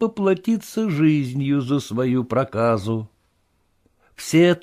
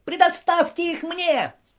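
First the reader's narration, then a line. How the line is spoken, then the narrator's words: Piercing squeal over commotion. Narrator (Russian): завизжал лягушонок, покрывая своим пронзительным голосом даже эту суматоху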